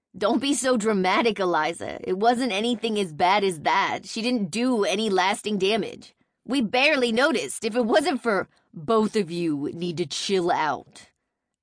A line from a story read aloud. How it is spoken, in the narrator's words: a new man growled